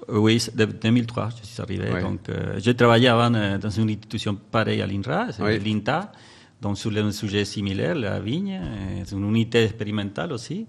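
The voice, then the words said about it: Noticeable foreign accent in French. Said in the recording (French): “super accent”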